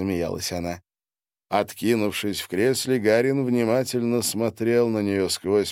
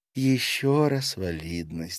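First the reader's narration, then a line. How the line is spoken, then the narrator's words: Exhaled. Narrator (Russian): выдохнула Демпак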